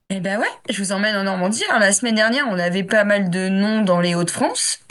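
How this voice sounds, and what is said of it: Regional French accent. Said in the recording (French): “T'as l'accent. C'est pas parce que tu t'es délocalisé que t'as perdu ton accent.”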